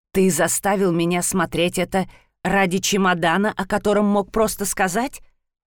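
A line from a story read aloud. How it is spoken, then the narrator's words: Barely restrained growl. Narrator (Russian): спросил едва сдерживая рычание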